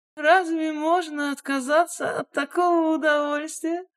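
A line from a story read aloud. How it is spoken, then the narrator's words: Laughing. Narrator (Russian): рассмеялась Нина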